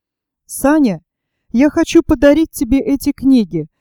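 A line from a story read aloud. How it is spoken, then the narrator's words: Slightly trembling female voice. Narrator (Russian): сказала она немного дрожащим голосом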